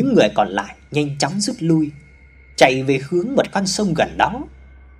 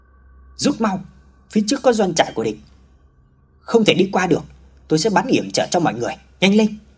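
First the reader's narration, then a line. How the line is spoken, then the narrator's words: Urgent shout. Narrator (Vietnamese): Hào la lên tình trạng khẩn cấp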